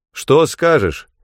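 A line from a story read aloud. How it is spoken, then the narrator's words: Shout. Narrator (Russian): крикнул я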